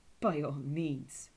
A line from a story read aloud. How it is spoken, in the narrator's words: sneered the hare